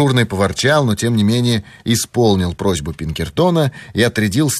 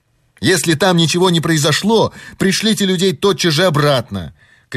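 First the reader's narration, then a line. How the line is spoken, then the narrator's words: Shouted after someone. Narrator (Russian): крикнул он вдогонку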